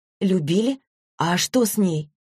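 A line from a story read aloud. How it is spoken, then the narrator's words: Plain. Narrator (Russian): спросила Злата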